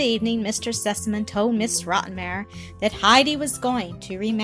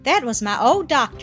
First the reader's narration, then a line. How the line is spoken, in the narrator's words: exclaimed father and daughter at the same time